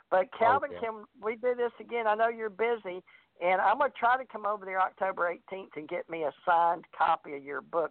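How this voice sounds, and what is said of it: Strong Southern US accent. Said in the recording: “I get really southern talking to you ... But that's just normal for me.”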